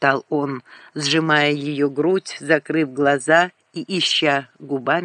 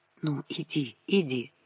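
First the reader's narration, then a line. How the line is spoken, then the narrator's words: Whisper. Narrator (Russian): Лиска шептала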